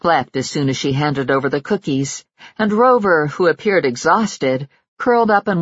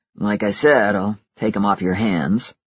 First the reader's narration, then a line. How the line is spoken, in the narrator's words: He seemed to be debating his answer before he finally murmured